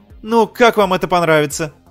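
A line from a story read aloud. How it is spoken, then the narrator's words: Exclaimed. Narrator (Russian): воскликнула она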